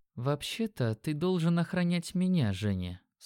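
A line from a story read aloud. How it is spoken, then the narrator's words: Quiet and calm. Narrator (Russian): сказала она тихо, ее голос был спокойным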